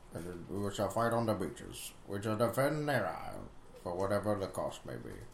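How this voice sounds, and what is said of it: Winston Churchill impression. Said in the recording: “You do a pretty good Winston Churchill impression,”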